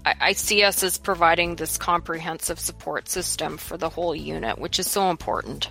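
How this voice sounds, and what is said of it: Canadian accent. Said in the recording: “you have a cool accent ... I love Canadian accents.”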